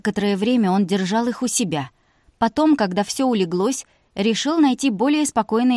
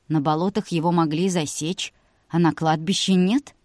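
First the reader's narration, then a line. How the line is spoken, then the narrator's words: Insinuating, proud. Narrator (Russian): вкрадчиво уточнил Илья, явно гордясь своими детективными навыками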